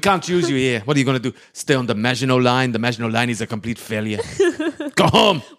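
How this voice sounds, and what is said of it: Put-on French accent. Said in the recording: “are you being German or French? ... I was super French. ... That was the most French I've ever been. ... I was 100% trying to be French.”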